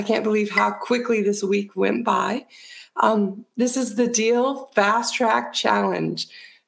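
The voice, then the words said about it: Slightly altered, cold-affected voice. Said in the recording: “my voice is a little bit different. I am getting a little bit of a cold”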